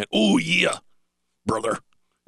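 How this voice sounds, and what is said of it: Hulk Hogan impression. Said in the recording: “my Randy Macho Man Savage impersonation ... The Macho Man. ... Actually, that was Hulk Hogan.”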